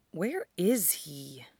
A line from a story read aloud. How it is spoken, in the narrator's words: Duo muttered